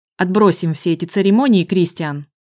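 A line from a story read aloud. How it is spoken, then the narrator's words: Sharp, harsh. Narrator (Russian): Он заговорил резко и жестко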